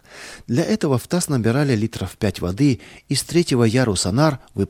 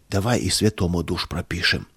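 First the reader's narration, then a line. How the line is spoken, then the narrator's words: Whisper. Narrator (Russian): шепота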